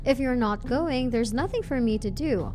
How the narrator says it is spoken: Brian said

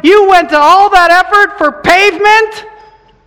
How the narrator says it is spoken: Peter, shocked, cried out

